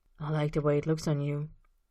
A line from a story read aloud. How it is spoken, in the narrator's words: Austin says in a low murmur